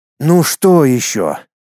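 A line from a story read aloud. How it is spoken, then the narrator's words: Heavy weary sigh. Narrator (Russian): Тяжело вздохнув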